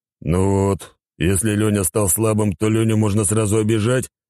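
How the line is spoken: Offended deep bass. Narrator (Russian): обиженно пробасил глава спартанской корпорации

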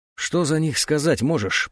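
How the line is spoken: Through gritted teeth. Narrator (Russian): процедил сквозь зубы анжуец

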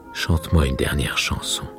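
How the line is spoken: Murmur. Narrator (French): murmura-t-il

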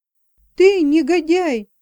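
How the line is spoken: Furious shout. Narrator (Russian): в ярости закричала

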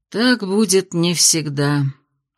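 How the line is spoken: Sighing. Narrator (Russian): вздохнул Кайл

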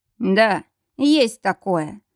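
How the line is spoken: Muffled, dull voice. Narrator (Russian): Его голос звучал глухо

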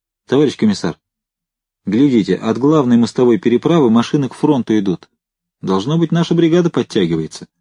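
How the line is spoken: Exclamation. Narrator (Russian): воскликнул Семенов

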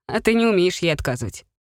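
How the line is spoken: Chuckling. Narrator (Russian): хохотнул этот рыжий

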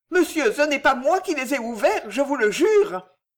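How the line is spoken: Old woman exclaiming. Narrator (French): s'écria la vieille

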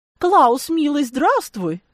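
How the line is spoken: Cooed. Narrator (Russian): проворковала она

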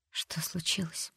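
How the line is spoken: Weak voice. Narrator (Russian): только и спросила та слабым голосом

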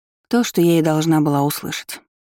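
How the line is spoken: Dull, flat voice. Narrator (Russian): тусклым голосом отозвалась Рис

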